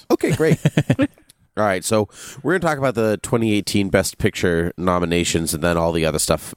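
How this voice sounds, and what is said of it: Voice of someone with a cold. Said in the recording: “I have a cold.”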